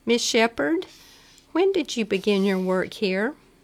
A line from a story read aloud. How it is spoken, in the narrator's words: piped promptly